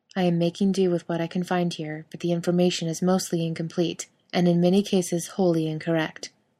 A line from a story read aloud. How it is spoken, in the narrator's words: Castiel says, his voice flat